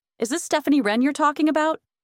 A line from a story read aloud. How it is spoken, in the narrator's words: The blonde nodded excitedly